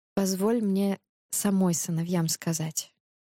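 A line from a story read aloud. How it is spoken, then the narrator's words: Soft repetition. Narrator (Russian): мягко повторила царица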